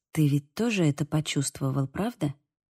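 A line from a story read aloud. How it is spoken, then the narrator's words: Whisper. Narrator (Russian): прошептала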